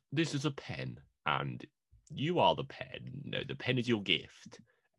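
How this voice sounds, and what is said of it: Imitates another person's voice. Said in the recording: “your James McAvoy impression?”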